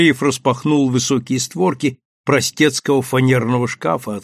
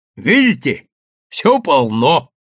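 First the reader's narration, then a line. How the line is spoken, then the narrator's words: Shouted. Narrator (Russian): крикнул Андреев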